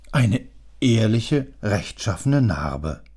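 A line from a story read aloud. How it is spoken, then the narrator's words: Sighing. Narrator (German): seufzte der Portier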